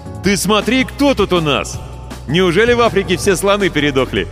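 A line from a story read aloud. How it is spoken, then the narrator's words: Delighted yelling. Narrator (Russian): восхищенно завопил Ваня Кожин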